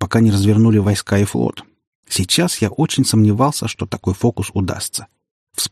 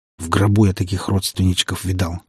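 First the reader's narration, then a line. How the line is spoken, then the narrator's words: Grumbling mutter. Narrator (Russian): буркнул я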